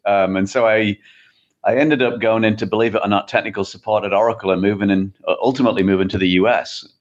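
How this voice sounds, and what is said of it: English accent. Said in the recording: “as you can probably tell from the accent, I'm not from the Midwest. So I originally from England.”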